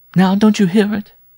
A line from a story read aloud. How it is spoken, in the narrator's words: She cried with an inarticulate gasp